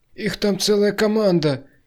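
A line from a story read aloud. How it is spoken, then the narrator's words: Frightened bleating. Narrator (Russian): испуганно проблеял Васяня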